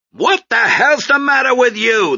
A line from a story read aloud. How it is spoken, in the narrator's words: the foreman shouted at him